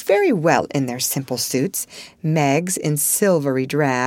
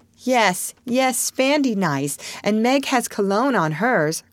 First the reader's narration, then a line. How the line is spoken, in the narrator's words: cried Joe